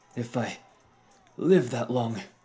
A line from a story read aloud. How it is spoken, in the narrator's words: my younger self breathed